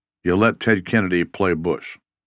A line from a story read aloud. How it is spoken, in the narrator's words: muttered quietly